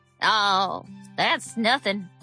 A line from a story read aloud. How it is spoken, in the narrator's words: Sterling said